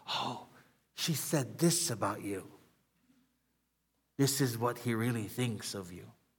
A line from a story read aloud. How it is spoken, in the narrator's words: Because the demons are here trying to whisper